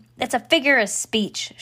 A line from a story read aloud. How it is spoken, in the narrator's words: shouted Eugenia